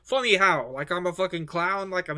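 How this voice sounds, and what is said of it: Poor imitation of another person's voice. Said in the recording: “that was a terrible impersonation ... nowhere near high pitch ... I can't get there I haven't got it in the register ... that was my honest uh, Joe Pesci attempt”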